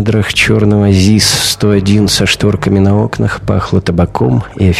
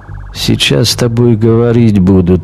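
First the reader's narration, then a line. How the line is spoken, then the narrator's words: Heavy accent. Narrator (Russian): сказал он с сильным акцентом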